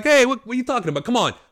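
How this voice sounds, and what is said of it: Put-on Italian New York accent. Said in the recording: “Brooklyn ... like an Italian, when I go New York, I'm like a Italian Jew, you know, Italian or Jewish”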